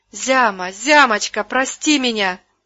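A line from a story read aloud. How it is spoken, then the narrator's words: Shouting. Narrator (Russian): закричала она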